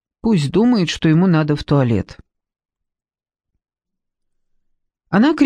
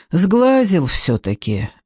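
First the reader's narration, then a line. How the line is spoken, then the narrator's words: Gloomy. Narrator (Russian): мрачно добавила Зоя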